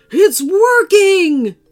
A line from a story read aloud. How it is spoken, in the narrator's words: the limo driver cried